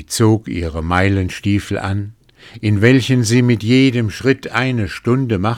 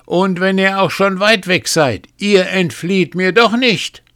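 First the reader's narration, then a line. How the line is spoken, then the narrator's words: Calling out. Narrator (German): rief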